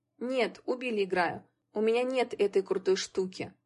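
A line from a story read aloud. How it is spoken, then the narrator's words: Sad sigh, young boy. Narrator (Russian): грустно вздохнул мальчик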